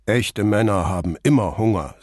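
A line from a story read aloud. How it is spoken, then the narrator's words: Deep manly voice. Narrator (German): sagte Vianello mit der tiefen Stimme eines echten Mannes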